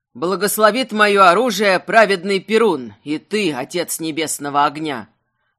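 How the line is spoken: Loud. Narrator (Russian): Громко сказал Светил

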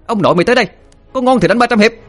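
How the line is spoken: Shouting together. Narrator (Vietnamese): Linh Miêu cùng hét lên

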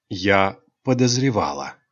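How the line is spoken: Calm reply. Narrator (Russian): спокойно ответила солнечная принцесса

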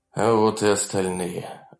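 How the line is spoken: Sigh. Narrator (Russian): вздохнул он

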